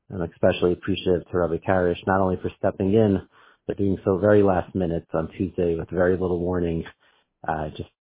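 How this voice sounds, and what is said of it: Unwell, sick-sounding voice. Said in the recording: “As you might hear in my voice, I've been feeling under the weather.”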